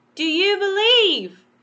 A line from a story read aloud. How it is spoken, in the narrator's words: shouted